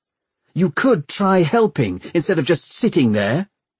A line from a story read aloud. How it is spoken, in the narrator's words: Tom snapped back